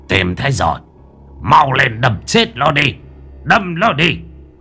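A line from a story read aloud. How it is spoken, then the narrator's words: Shouting old man. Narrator (Vietnamese): Lão hét lên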